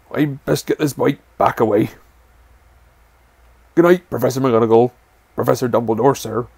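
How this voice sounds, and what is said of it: Hagrid in a muffled voice. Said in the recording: “said Hagrid in a very muffled voice.”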